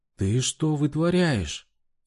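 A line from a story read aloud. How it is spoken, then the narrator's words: Frightened yell. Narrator (Russian): Испуганно завопила она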